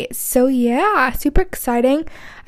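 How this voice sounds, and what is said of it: Put-on American accent. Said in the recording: “I don't know why I just did an American accent”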